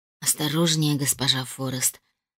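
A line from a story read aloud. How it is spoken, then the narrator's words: Mocking whisper. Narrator (Russian): насмешливо шепнул он мне на ухо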